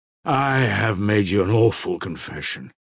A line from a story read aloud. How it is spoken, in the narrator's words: Mitya said gloomily in conclusion